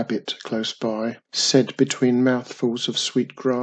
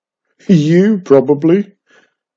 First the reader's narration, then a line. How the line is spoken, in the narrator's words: giggled